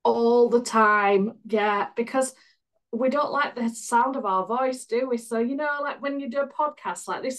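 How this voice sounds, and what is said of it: Northern English accent. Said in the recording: “I originally came from Yorkshire and moved to Lancashire 20 years ago. So I just do have a northern accent.”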